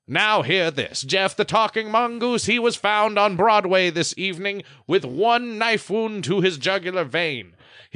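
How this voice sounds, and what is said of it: Old-timey radio announcer voice. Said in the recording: “old-timey radio voice”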